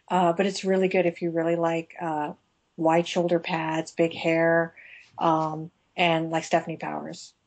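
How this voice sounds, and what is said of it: Congested voice from a cold. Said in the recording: “I'm sorry, I have a cold here. I'm at the tail end of a cold.”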